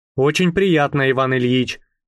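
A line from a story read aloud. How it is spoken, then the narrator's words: Plain. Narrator (Russian): сказал я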